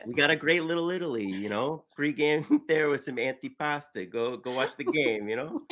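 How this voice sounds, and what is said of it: Put-on Italian-American accent. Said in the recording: “It's the Italian-American thing ... These are good accents. ... It's a pretty good accent.”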